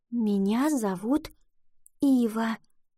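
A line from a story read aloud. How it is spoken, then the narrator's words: Whispering. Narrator (Russian): прошептала она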